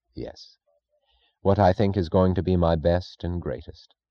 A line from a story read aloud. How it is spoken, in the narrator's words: Francisco answered gravely, almost solemnly